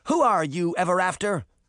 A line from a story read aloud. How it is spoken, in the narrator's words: Moth shouted at Canis